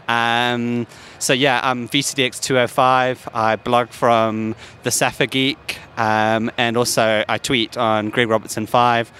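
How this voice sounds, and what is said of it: South African accent, sounds English. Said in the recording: “My accent might be not used to for Americans, so a lot of Americans think I'm English. I do live in England, but I'm originally from South Africa.”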